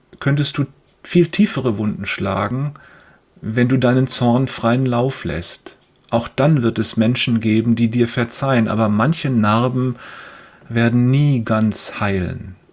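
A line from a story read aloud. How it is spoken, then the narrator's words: Father continuing. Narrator (German): fährt sein Vater fort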